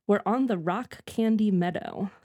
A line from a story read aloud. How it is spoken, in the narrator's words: said Nutcracker